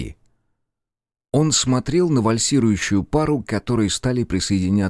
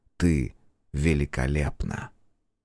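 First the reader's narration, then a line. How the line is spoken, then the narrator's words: Silent mouthed whisper. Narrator (Russian): одними губами прошептал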